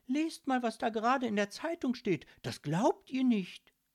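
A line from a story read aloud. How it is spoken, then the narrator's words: Excited calling out. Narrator (German): rief Lilith aufgeregt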